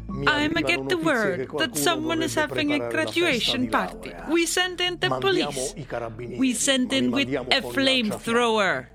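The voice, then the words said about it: Super Mario-style Italian accent. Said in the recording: “translating on the fly using her best Super Mario Brothers Italian accent”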